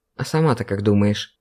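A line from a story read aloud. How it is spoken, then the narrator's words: Feigned sleepy mumble. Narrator (Russian): пробурчал Павлик якобы полусонно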